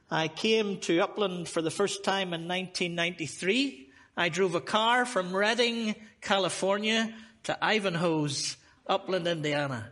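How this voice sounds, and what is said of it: Irish accent. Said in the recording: “love this accent ... quaint accent ... for an Irishman”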